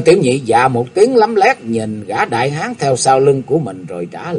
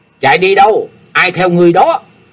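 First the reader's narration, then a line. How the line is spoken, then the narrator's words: Shouted question. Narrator (Vietnamese): Tên tiểu nhị quát hỏi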